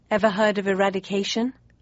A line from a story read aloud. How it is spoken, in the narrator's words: I asked